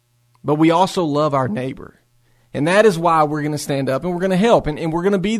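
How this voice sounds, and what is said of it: East Tennessee Southern accent. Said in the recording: “East Tennessee and the South ... Do we have an accent? Absolutely.”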